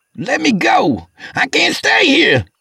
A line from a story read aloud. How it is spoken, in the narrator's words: he started yelling